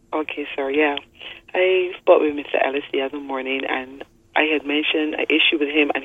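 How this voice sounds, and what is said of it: Hoarse voice. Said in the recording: “My voice is a bit hoarse.”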